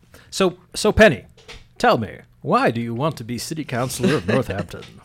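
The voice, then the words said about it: Polished radio-announcer voice. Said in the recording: “good radio voice”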